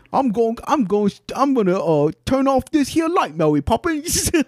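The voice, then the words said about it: Mock Cockney accent. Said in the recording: “speaking with a Cockney accent”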